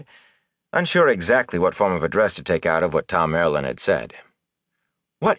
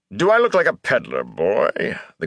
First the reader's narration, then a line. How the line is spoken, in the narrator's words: The Gleeman grumbled